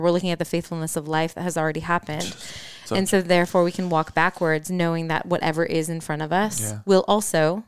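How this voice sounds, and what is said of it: Midwestern American accent. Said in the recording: “my Midwest accent”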